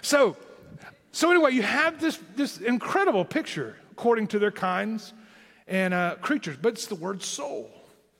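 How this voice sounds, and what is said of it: Southern Tennessee American accent. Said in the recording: “my southern Tennessee accent”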